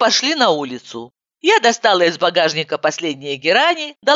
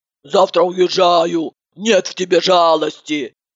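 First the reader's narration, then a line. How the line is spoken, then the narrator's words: Grumbling. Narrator (Russian): бурчала Иванова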